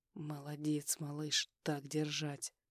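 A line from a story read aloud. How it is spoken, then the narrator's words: Quiet mutter. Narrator (Russian): Тихо пробормотал я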